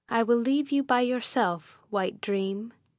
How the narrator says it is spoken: I said

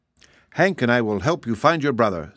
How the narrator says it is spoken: said Betsy in her most cheerful voice

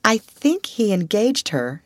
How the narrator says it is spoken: she said

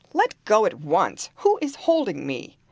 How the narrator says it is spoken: he called out angrily

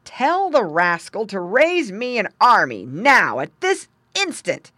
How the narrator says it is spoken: exclaimed

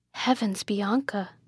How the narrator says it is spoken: said the princess softly

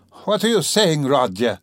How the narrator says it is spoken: cried Pulcheria Alexandrovna

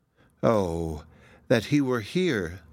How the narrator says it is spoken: she sighed

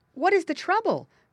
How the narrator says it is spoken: cried Spotty the Turtle and Grandfather Frog and Billy Mink and Little Joe Otter together

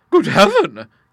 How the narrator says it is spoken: gasped Bertha

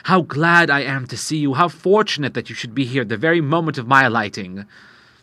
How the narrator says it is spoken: he exclaimed

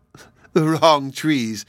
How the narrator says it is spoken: laughed Sylvie

